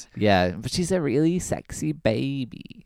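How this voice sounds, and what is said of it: Breathy baby-like voice impression. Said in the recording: “her voice, her baby voice ... That was a great impression”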